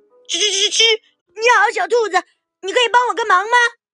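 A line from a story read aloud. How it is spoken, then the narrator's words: Small mouse calling out. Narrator (Chinese): 一只小老鼠叫住了它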